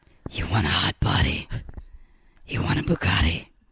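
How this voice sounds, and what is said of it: Scary Batman character voice. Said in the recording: “doing my Batman voice ... It's so scary ... read this in uh, the Batman voice”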